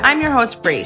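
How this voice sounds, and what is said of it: Upbeat radio-host voice. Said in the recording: “You had such a good radio voice there. ... It was almost like a Disney channel ... it was uppity. ... a little more NPR-y.”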